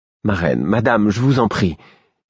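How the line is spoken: Pleading. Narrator (French): fis-je d'un ton implorant

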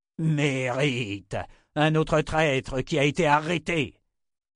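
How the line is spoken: Shouted. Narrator (French): cria Lothain

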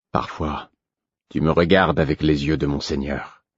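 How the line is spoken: Calm reply. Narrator (French): répondit-il calmement

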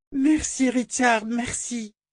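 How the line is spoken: Cried out. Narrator (French): cria-t-elle

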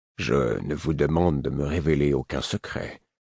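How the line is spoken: Low voice. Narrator (French): dit-il à mi-voix

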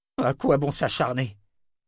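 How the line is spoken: Sudden exclamation. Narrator (French): s'écria-t-il soudain

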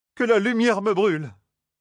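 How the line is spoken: Exclamation. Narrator (French): s'écria Matt

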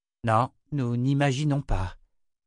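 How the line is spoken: Sighed. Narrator (French): soupira Magda

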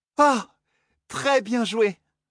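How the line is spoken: Exclaiming. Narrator (French): s'exclama

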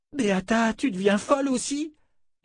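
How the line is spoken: Moaning. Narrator (French): gémit Fitch

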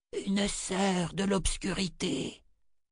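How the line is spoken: Breathed softly. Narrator (French): souffla-t-elle

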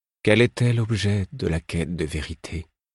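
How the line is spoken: Weak voice. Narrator (French): Il parlait faiblement

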